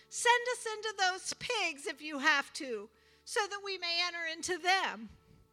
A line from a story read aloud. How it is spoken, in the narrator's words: The spirit begged Jesus